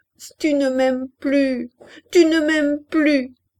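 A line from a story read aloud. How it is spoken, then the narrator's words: Sobbing. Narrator (French): Et elle éclata en gros sanglots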